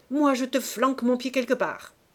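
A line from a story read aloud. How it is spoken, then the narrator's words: Barking, snarling. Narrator (French): ils aboyaient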